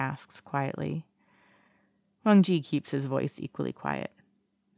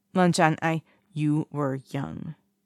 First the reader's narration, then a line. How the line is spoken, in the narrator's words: Wang Ji says firmly